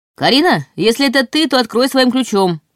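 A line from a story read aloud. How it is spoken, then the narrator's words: Shouted. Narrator (Russian): крикнул Ваня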